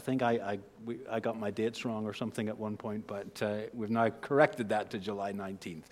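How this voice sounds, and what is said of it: Northern Irish accent. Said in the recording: “In Northern Ireland and England. So there's where the accent has originated.”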